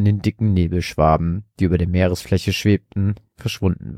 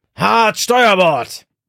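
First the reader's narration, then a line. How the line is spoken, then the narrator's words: Bellowing again. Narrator (German): brüllte Rubeus erneut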